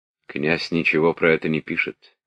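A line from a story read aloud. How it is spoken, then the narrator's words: Quiet speech. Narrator (Russian): тихо сказал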